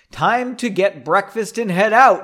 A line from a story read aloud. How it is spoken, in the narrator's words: he said loudly